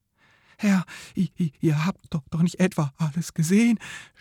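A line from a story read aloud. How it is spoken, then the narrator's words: Worried stammering. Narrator (German): stammelte Rebelwitsch besorgt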